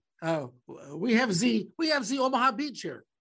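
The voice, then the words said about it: Mock French accent, Pepe Le Pew. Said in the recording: “my French accent ... you were not going to do the French accent ... So it sounds like Pepe Le Pew”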